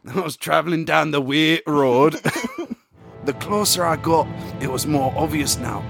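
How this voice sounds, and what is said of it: Put-on accent with Scottish touches. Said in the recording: “This is my favourite accent so far ... A little bit of Scottish thrown in ... it's a little accent. It's an accent.”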